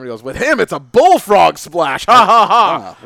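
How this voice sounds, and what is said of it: Impression of JBL. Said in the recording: “that's like a mean thing JBL would say ... I don't know why I'm doing that impression”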